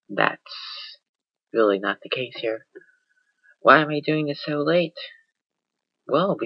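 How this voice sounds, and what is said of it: Usual voice. Nothing is said of it.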